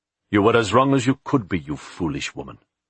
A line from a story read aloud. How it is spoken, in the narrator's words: Philip said harshly